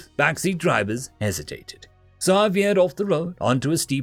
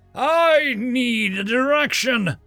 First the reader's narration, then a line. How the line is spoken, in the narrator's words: yelled